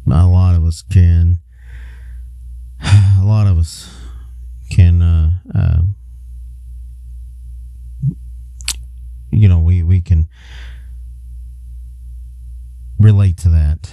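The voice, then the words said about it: Choked-up, emotional voice. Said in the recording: “I got a little choked up.”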